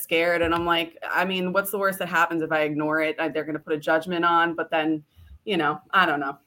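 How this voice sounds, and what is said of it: New York accent. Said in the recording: “Can anyone listening tell she's from New York? ... It's not even that bad, my accent.”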